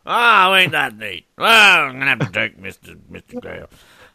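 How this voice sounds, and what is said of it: Crotchety old man character voice. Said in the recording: “I love your crotchety old man voice. You really committed to that”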